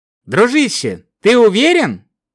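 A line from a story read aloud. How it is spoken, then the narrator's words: Slightly anxious question. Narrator (Russian): слегка взволнованным голосом спросил Шакс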